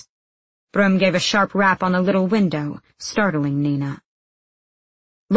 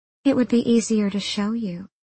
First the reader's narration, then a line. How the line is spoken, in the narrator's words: she purred